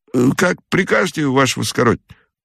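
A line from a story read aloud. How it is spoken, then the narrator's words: Apologetic mumble. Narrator (Russian): пробормотал он в извинении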